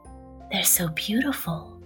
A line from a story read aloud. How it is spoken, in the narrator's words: whispered Mr